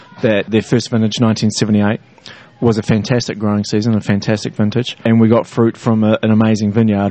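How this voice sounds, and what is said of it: New Zealand accent. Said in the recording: “doesn't have an accent from Northern California, from a different place ... I'm from south of the border. I originate from New Zealand”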